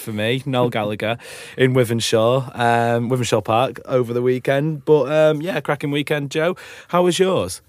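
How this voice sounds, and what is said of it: Rough, worn-out voice. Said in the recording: “As you can probably tell by my voice, it has been a rough weekend”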